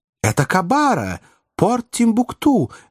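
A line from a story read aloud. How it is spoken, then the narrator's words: Cheerful shout. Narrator (Russian): весело закричал доктор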